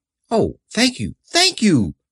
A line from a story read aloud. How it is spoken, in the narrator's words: cried the Scarecrow